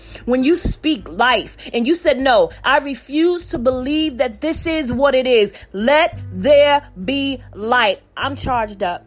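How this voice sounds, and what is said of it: Yelling, loud excited voice. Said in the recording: “I'm yelling.”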